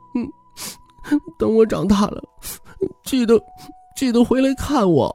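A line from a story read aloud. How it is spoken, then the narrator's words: Sobbing, choked, unclear. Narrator (Chinese): 王初冬彻底伤心，一边抽泣着 含糊不清的哽咽道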